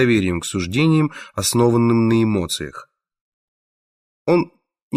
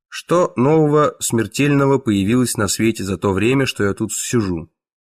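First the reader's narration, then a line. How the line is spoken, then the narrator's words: Plain. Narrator (Russian): спросил он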